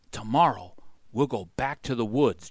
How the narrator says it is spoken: Jack said softly

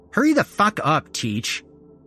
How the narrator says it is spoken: Freckles snapped

